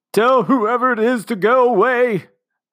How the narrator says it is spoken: sobbed Commander Melanoff

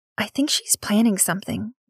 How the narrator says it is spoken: Nix whispered

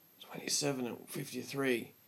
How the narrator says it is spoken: he whimpered

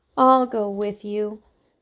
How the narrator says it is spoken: said Heidi sadly

